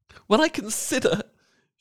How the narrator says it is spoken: she added in a more agitated tone

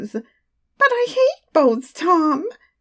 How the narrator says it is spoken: she squealed in anguish

